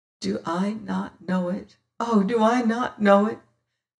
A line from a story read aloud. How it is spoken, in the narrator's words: says she in choking voice